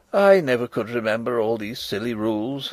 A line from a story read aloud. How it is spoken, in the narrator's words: said I, rather feebly